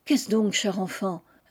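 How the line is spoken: Insistent. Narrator (French): insista Marie

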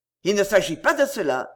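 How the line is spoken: Curt dry tone. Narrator (French): dit sèchement le comptable

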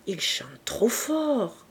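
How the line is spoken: Whispering in ear. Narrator (French): murmura Octave à l'oreille de Madame Edouin

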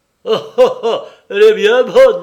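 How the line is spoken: Exclaimed. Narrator (French): s'écria mon ex-associé

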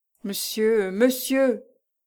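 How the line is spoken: Stammering in anguish. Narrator (French): bégaya Lucien affolé de douleur

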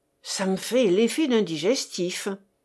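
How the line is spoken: Honest manufacturer replying. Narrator (French): répondit l'honnête fabricant

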